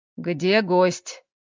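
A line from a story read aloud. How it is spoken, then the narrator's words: Stern question. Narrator (Russian): строгим голосом спросил он у жены, отказавшей ему в лекарственных 100 граммах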